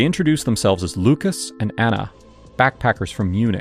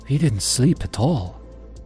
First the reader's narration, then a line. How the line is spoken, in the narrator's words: Anna said, her voice low, almost a whisper